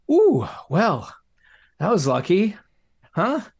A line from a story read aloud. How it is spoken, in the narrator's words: said Dad nervously